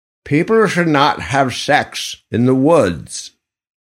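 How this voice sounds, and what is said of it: Put-on English accent, old person. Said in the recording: “That accent was English. I'm not really sure why. It was an old person.”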